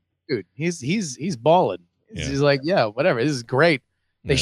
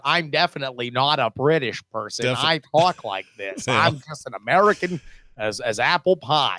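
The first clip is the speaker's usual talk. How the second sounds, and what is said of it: Put-on American accent. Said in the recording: “How's your American accent? ... I can just do the same accent.”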